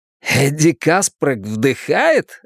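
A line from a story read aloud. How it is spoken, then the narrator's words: Joyful exclaim, then newsreel voice. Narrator (Russian): радостно воскликнул Ричи, а потом внезапно заговорил голосом диктора кинохроники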